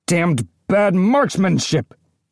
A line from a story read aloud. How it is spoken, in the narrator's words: Mooka growled